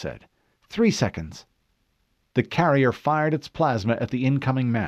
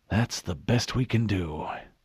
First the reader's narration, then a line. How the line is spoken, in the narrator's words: Admiral Whitcomb whispered